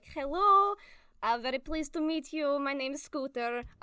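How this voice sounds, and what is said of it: Bad fake Russian accent. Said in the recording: “give her a Russian accent ... a really bad fake Russian accent.”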